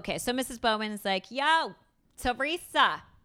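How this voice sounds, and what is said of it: Put-on New York accent. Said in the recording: “No, that's not a Chicago accent. That's New York.”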